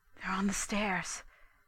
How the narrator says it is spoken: Daisy whispered

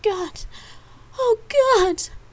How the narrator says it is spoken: Gabrielle cried out at the sensation

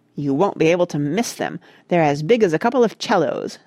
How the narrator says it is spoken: said Randy crossly

